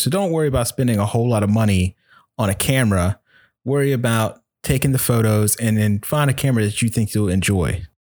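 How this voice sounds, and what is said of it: Smooth, rich radio-style voice. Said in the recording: “a really beautiful radio voice”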